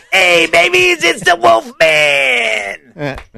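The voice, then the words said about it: Wolfman Jack impression. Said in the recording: “He's also a Wolfman Jack impersonator”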